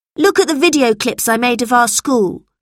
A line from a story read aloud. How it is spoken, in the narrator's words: said Robert crossly